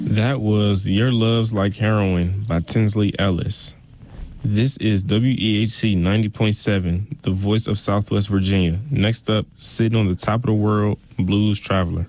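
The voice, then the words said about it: Polished radio announcer voice. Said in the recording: “You've got a great radio voice.”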